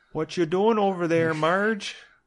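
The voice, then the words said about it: Minnesota accent, Fargo impression. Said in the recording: “It's very close to Minnesota. ... That is Fargo”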